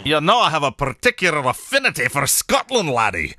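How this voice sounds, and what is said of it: Put-on Scottish accent. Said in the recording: “my Scottish accent quickly devolves into my Irish accent”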